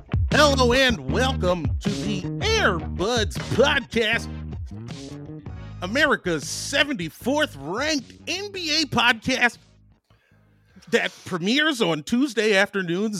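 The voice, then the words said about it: Put-on stereotypical white-guy voice. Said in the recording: “doing his white voice”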